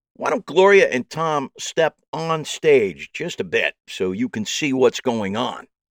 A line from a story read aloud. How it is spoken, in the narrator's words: said loudly so they could hear me from the back of the house